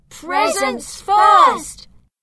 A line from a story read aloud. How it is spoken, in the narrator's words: and I shouted